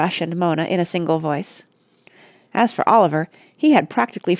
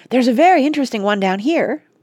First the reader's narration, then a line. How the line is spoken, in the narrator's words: piped Oliver, who was just learning to read